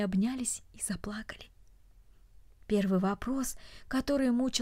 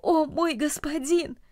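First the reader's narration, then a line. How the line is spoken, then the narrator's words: Exclaiming. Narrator (Russian): Ричард воскликнул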